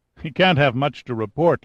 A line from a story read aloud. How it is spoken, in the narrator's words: laughed Hopper